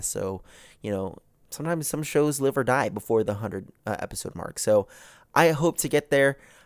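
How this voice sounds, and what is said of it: Rough, slightly congested voice. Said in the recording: “I apologize for the sound of my voice again ... I just got over losing my voice, and now I'm going over what possibly might be a small little, like, weather cold ... if you hear me sniffling or, you know, clearing my throat”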